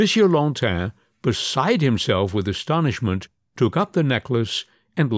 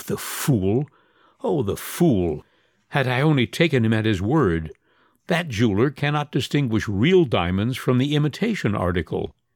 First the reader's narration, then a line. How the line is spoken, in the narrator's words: he felt inclined to laugh, and said to himself